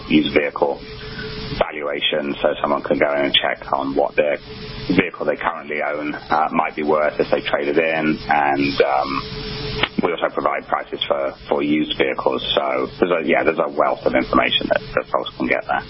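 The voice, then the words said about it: Australian accent. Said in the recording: “Your native Australian accent”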